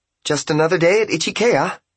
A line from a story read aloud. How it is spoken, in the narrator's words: she announced happily